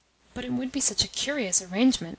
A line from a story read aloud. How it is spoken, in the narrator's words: muttered Lienitsin